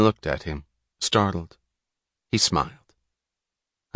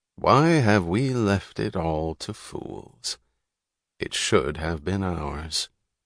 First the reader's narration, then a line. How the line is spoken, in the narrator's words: He said slowly, in the tone of a quotation